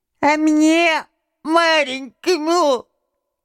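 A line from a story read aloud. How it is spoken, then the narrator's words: Thin little voice. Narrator (Russian): прибавил он тоненьким голоском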